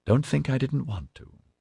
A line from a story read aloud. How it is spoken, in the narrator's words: she said wistfully